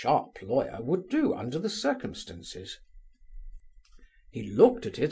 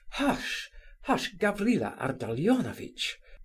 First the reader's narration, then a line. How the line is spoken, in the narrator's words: cried Muishkin in dismay